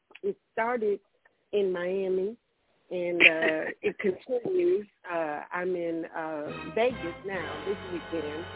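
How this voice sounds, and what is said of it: Raspy, hoarse voice. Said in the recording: “I am a little raspy and a little hoarse.”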